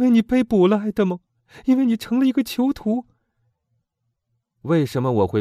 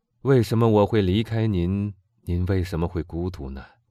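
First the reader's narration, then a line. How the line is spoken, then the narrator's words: Sighing. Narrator (Chinese): 基督山叹了口气说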